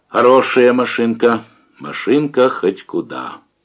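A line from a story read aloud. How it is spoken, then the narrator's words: Quiet. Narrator (Russian): Давыдов тихо сказал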